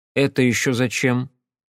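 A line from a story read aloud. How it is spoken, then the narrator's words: Cold inquiry. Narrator (Russian): холодно поинтересовался я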